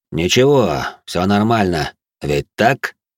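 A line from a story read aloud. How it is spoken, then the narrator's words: Man's cold tone. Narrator (Russian): произнес холодным тоном мужчина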